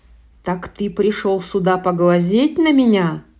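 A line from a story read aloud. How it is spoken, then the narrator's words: Thundering monster voice. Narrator (Russian): прогремело чудовище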